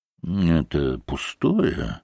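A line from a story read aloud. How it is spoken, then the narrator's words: Muttering. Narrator (Russian): бормотал Ракитин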